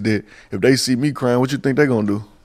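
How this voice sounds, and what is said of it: Memphis accent. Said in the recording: “the way he says human, it's like, I could listen to it all day. That little Memphis accent is so great.”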